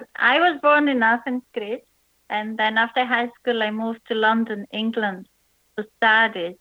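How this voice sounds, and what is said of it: Mixed foreign accent. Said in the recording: “your accent ... how you got that accent ... every time I lived in a different country or state, my accent would change slightly”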